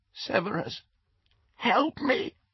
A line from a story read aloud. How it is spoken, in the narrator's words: the woman said, in a cracked and terrified voice